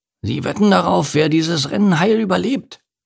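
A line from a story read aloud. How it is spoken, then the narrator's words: Ant growling. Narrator (German): knurrte die Ameise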